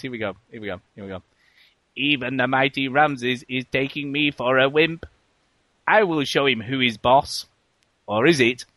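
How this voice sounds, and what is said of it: Imitates another person's voice. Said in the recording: “do my Stephen Hawking voice.”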